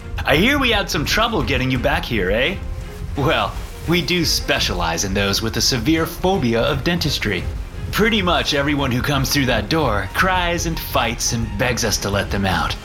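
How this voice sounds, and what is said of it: Jovial character voice. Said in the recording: “in a jovial voice”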